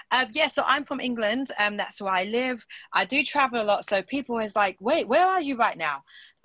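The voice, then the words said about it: British English accent. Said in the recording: “where's her accent from? ... sometimes my accent can sound a bit weird, but most of the time it's quite British like this ... Very British”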